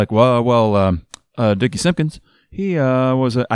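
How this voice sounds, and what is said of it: Barack Obama impression. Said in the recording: “I can't do a Barack Obama impression ... that wasn't bad ... That, that was pretty good”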